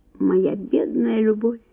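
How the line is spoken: Barely audible murmur. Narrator (Russian): еле слышно пробормотал граф

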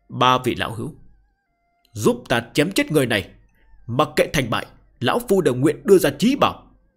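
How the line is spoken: Old man's roaring howl. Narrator (Vietnamese): lão mạnh mẽ ngẩng đầu hướng về phía bầu trời gào rú một tiếng

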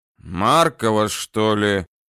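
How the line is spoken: Muffled from inside house. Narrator (Russian): глухо донеслось из домика

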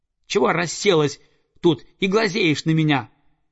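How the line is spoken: Young eagle yelling. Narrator (Russian): завопил орленок

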